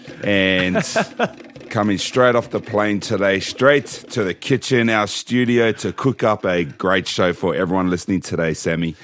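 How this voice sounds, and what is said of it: Strained, worn-out voice. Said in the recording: “my voice is struggling this morning ... you would have been yelling and screaming at the game”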